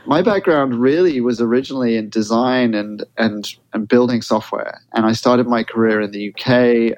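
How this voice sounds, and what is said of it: Non-American accent. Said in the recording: “as you can probably tell from my accent, I'm not an American. ... and it's not a Jersey accent.”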